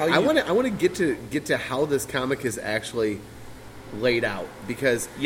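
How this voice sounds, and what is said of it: Usual voice. Nothing is said of it.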